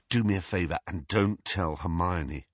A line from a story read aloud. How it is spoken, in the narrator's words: said Harry